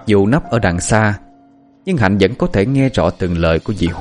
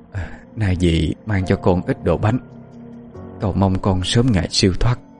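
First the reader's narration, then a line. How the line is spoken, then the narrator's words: Murmured prayer. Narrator (Vietnamese): Dì miệng lẩm bẩm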